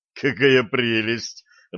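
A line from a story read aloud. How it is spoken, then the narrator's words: Laughing loudly. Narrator (Russian): расхохотался Блад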